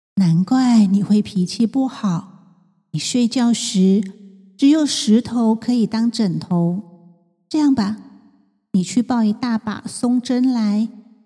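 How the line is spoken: Calm, gently smiling. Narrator (Chinese): 拼贝人淡淡的微笑说

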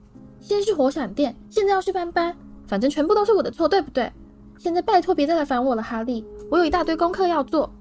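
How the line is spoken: Shrill yell. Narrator (Chinese): 他尖声吼道

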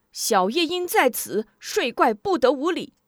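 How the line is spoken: Sudden loud shout. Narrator (Chinese): 突然人群中有人高喊

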